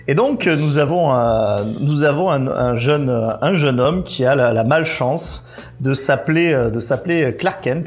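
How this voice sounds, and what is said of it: Put-on southern French accent. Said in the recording (French): “tu prends un accent du sud”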